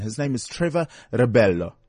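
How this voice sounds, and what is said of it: Put-on Italian accent on a name. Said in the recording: “it's probably without the Italian accent, but I kind of like it. I'll make it more like exotic.”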